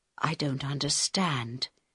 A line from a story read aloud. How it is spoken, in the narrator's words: he said quietly in Harold's ear